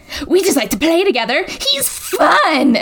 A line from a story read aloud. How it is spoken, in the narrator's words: he says in a manic voice